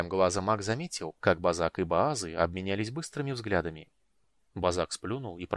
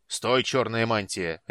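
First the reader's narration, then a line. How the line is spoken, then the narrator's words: Barking. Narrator (Russian): рявкнул Базак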